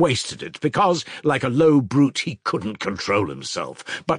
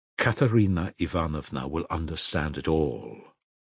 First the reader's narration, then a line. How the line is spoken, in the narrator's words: Alyosha said solemnly